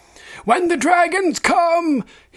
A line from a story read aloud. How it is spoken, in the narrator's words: shrieked